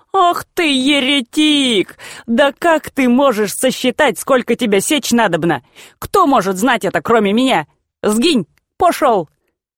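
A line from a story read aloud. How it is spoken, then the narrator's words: Speaking through chuckling laughter. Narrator (Russian): дробно засмеялся, говоря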